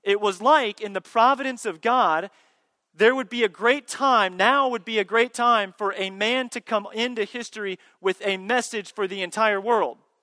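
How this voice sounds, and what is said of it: Sarcastic tone. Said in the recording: “I'm kind of being sarcastic right now.”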